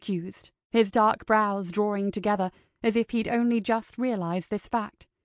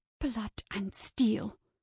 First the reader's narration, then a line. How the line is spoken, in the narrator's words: hissed